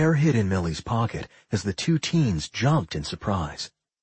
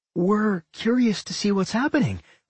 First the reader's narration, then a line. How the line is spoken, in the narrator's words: Millie chirped